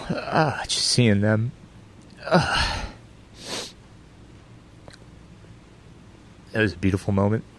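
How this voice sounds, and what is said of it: Choked-up, emotional voice. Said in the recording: “got a little emotional”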